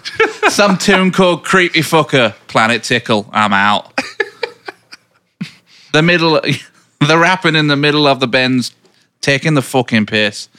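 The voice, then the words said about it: Manchester-accented impression of another person. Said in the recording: “Like in Manchester language ... my Liam Gallagher impression”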